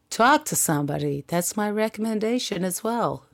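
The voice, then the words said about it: Put-on American accent. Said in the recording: “I just put on an American accent because I feel like that gives it a little bit more empathy”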